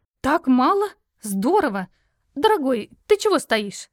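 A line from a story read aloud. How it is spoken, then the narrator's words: Exclaimed. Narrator (Russian): воскликнула она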